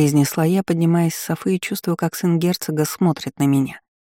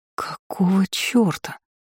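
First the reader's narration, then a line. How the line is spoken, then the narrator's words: Hissing like a wildcat. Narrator (Russian): Зашипела я дикой кошкой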